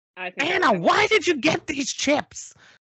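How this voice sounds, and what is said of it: Yelling, annoying cartoon parrot voice. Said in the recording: “Is that your Gilbert Gottfried impression? ... That was my Iago. ... I was just trying to yell and be as annoying as possible.”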